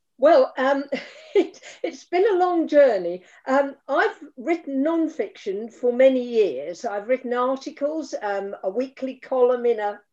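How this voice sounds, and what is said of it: British accent. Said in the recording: “that lovely accent of yours ... that British lilt coming through”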